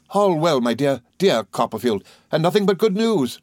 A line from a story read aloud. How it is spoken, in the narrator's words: we cried with pleasure, both of us